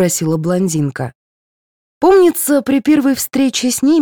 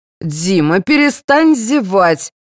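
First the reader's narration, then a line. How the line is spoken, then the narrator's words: Angry command. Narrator (Russian): сердито велел Владимир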